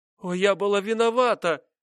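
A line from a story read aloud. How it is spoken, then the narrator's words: Crying out. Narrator (Russian): вскрикнула она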